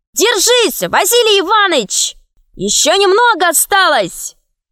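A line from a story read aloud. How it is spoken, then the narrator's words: Shouting crowd. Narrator (Russian): другие кричали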